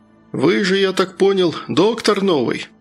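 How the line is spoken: Plain. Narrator (Russian): спросил Прохор

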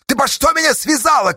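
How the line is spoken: Shout. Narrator (Russian): крикнул

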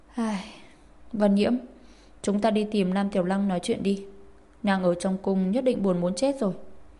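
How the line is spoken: Sighing. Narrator (Vietnamese): thở dài nói

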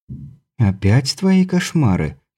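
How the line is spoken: Purring. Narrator (Russian): промурлыкала Елизавета Мария

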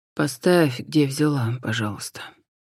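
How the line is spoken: Quiet reply. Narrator (Russian): тихо ответил Джон

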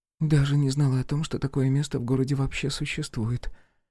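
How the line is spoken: Mutter. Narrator (Russian): пробормотала она

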